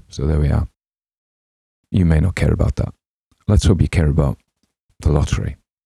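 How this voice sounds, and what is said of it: Northern English accent. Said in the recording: “my own native accent ... a Northern English accent”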